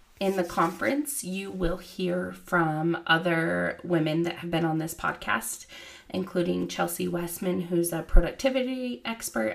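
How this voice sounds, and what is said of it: Hoarse voice, fading from a cold. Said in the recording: “I'm losing my voice a little. I have the fall cold that everyone else has.”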